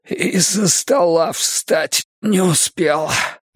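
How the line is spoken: Hoarse rasp. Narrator (Russian): прохрипел он

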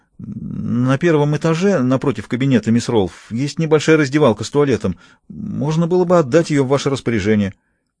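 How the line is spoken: Timid suggestion. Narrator (Russian): Отрезвленный таким внушительным перечнем требований, вице-председатель робко предложил

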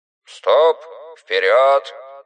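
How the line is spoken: Muffled, into speaking tube. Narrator (Russian): Бородатый капитан рулевой глухо говорил в трубку

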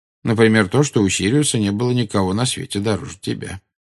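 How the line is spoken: Calm reply. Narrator (Russian): спокойно ответил Дамблдор

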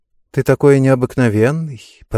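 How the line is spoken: Cooing. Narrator (Russian): проворковала она

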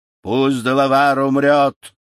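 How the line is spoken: Thunderous voice. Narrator (Russian): громовым голосом проговорил Магуа

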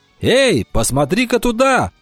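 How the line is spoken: Sudden shout. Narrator (Russian): вдруг закричал он

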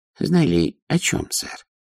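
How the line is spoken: Timid question. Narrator (Russian): робко спросила Нюня

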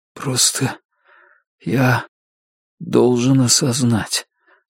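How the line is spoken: Forced out with effort. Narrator (Russian): с трудом выдавил он

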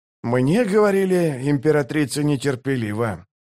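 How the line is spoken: Thoughtful mutter. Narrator (Russian): задумчиво пробормотал Барук

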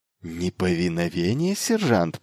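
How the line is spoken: Hissing. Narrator (Russian): прошипел Майлз в ответ

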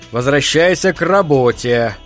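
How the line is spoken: Stern, to himself. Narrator (Russian): строго говорил он себе

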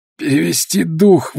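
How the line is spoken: Strained. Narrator (Russian): выдавил Смит

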